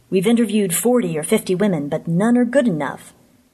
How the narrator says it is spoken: he added testily

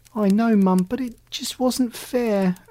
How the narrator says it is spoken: Alley Cat moaned

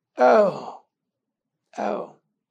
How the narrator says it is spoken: the voice croaked

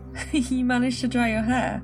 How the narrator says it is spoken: he asked with a giggle

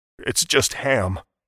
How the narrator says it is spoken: the butcher pleaded, but the whiny edge that laced his voice betrayed the lie

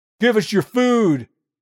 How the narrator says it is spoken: yells

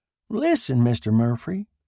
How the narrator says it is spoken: he said uneasily

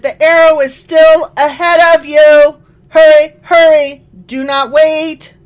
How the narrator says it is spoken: shouted

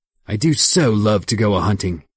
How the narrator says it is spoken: he cried

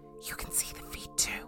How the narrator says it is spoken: She whispered

